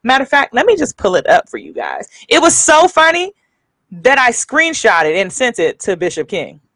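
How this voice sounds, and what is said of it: Country accent. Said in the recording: “my country accent is coming out”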